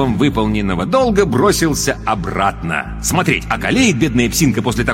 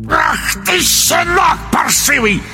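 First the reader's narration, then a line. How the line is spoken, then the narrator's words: Croaking bark. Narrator (Russian): рявкнул колдун весенней жабой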